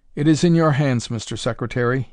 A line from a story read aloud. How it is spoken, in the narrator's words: said